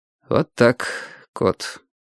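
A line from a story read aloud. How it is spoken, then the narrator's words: Low voice. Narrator (Russian): вполголоса сказал Вадим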